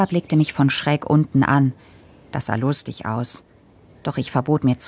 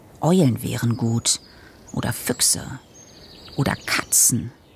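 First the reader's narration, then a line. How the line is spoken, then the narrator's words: Murmured. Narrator (German): murmelte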